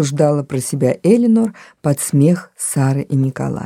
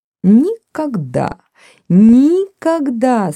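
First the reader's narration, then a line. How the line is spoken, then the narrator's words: Laughing. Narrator (Russian): смеялась Сара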